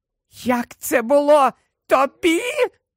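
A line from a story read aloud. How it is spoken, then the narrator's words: Extremely high-pitched shriek. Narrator (Ukrainian): Вона верещала на таких високих регістрах, що іще трохи, і ніхто, крім кажанів, мабуть, її не почув би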